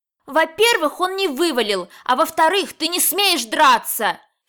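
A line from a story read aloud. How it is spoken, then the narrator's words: Heated, flushed shouting. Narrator (Russian): Вся вспыхнув, закричала на него запальчиво Тарочка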